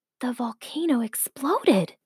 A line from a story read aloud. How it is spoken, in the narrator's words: whispered her mom